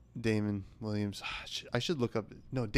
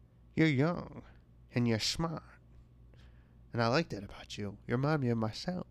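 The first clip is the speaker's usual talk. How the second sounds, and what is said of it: Old-timey speakeasy lady voice. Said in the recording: “try to do an impression of her ... Sounds like an old-timey speakeasy lady.”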